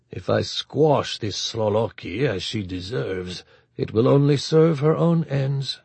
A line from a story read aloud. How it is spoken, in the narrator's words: Antonov told himself, and forced his deep, rumbling voice to remain calm and reasonable